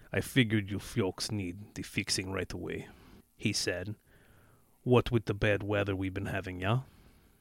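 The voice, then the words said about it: Strong put-on Slavic accent. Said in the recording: “You have to use a strong Slavic accent. ... Just do his pudgy face and broad accent.”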